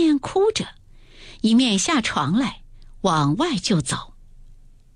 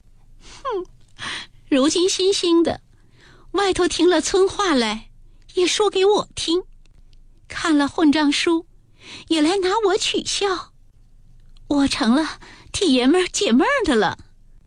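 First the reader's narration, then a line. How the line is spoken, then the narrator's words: Crying. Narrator (Chinese): 黛玉便哭道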